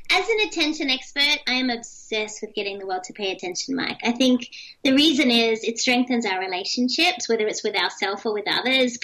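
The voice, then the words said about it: Australian accent, youthful-sounding voice. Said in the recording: “I know I sound like I'm five, but this is an Australian accent.”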